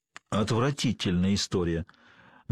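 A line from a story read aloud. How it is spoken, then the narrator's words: Grim statement. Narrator (Russian): мрачно констатировал доктор Грэнджер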